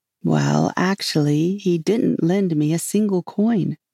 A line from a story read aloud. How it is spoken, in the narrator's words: the son replied